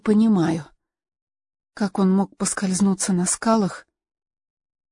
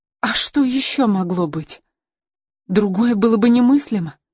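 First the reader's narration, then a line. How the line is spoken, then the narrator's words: Exclamation. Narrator (Russian): воскликнула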